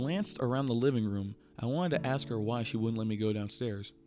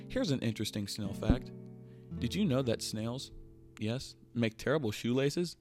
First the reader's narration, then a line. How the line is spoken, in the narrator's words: I laughed